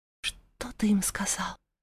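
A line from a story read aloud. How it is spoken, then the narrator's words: Quiet questioning. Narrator (Russian): уточнила тихо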